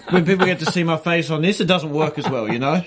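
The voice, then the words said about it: Speaks with a noticeable accent. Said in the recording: “I don't have the accent, though. That's intimidating to me. ... But the accent's good on radio”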